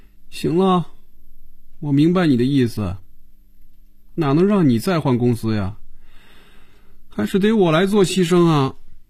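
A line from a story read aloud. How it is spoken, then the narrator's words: Dejected, resigned. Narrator (Chinese): 眼神暗淡下来，脸上也没了笑容，垂着眼皮说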